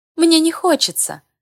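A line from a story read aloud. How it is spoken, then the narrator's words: Laughing. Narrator (Russian): посмеялась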